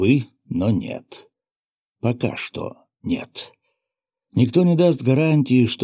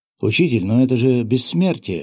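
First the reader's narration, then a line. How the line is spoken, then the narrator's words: Young apprentice exclaiming. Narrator (Russian): воскликнул молодой подмастерье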